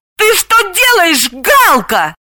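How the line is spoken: Shouting. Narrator (Russian): закричала она

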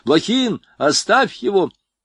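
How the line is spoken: Shout. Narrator (Russian): крикнул в окно Звонарев

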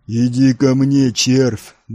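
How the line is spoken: Bellowed. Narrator (Russian): гаркнул Нил на языке Империи

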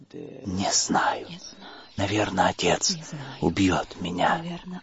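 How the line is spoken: Whisper. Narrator (Russian): прошептала она

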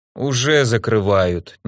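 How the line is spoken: Reluctant, through gritted teeth. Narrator (Russian): нехотя процедил он

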